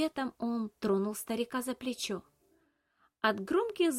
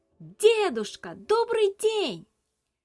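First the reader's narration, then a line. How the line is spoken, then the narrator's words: Very loud shout. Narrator (Russian): Набрав воздуха в легкие и собравшись силой, Илья крикнул так громко, как только мог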